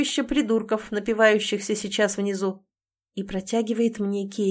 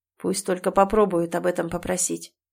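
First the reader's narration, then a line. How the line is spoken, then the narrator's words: Mutter. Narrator (Russian): бормочет Эмиль, прижимаясь своим лбом к моему и дыша в губы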